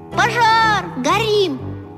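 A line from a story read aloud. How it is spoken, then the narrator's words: Group yelling. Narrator (Russian): мы и завопили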